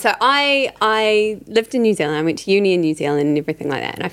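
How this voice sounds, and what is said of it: Australian-sounding accent. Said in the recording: “you have an Australian accent”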